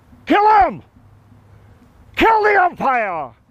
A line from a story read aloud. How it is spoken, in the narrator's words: shouted someone from the stand